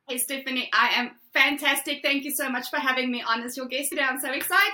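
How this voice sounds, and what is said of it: South African accent. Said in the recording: “You have a great accent ... Originally from South Africa”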